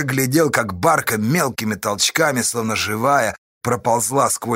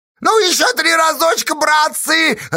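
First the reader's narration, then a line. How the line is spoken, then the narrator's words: Joyful shouting. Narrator (Russian): радостно кричал он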